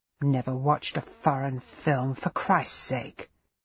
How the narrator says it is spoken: he muttered

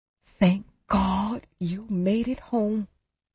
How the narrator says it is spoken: she gasped

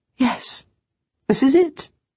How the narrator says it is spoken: I said, and for the first time smiled excitedly

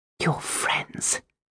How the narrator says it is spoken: I whispered

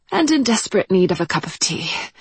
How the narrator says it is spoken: she sighed

